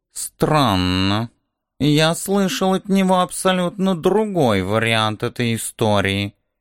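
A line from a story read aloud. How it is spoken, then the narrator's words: Muttering under breath. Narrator (Russian): пробормотал себе под нос кот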